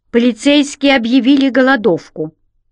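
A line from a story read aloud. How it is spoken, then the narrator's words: Angry reply. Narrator (Russian): сердито ответил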